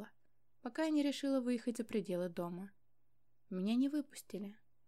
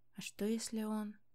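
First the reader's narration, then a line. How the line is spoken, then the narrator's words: Terrified whisper. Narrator (Russian): в ужасе прошептала служанка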